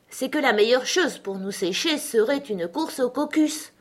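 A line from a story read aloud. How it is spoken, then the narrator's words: Offended tone. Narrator (French): reprit le dodo d'un ton vexé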